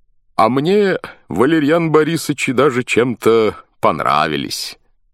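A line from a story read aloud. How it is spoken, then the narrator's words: Laughing. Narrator (Russian): смеялся Суэр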